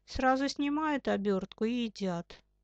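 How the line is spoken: Sighing. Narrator (Russian): он вздохнул

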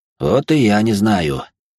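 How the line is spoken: Heavy sigh. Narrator (Russian): тяжело вздохнул я

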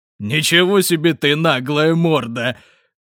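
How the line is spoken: Pained loud laughter. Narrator (Russian): Твердлов расхохотался, схватившись за бок, потому что смех отдавался болью в заживающих потрохах

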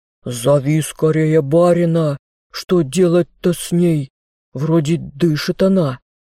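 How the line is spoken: Deep male bass. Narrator (Russian): Снова пробасил мужской голос

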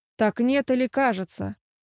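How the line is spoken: Irritated question. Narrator (Russian): Раздраженно переспросил он

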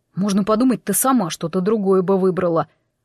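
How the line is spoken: Youth grumbling. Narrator (Russian): буркнул парнишка

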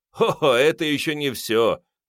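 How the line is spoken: Laughing. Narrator (Russian): рассмеялся лакей

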